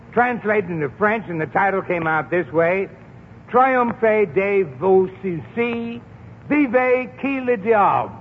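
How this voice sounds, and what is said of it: New England accent speaking French. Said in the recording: “you don't get that in my New England accent and the French”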